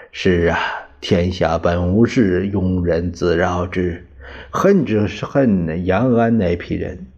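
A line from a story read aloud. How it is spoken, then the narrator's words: Slight sigh. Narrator (Chinese): 汪精卫 他微叹地说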